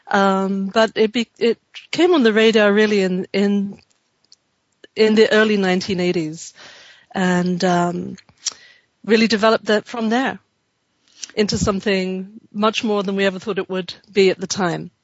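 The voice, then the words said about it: Pleasant London English accent. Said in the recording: “your accent because you have such a nice accent to listen to ... I was born in London”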